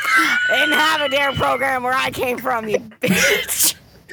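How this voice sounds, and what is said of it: Raspy smoker's voice. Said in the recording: “You want to know how my voice got like this? I smoked cigarettes since I was 14.”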